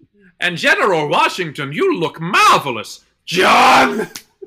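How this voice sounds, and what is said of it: Fernando Lamas impression. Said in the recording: “that Fernando Lamas impression”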